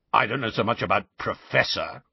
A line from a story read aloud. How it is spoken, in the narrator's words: growled the voice